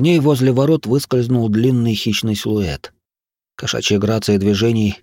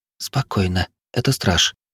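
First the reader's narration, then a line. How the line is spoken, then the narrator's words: Barely audible whisper. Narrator (Russian): чуть слышно прошептала Травинка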